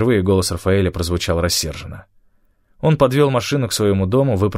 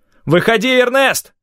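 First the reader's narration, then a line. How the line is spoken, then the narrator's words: Shout. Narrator (Russian): крикнул он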